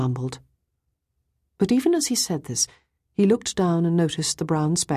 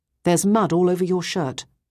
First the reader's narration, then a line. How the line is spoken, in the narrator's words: I said quite sternly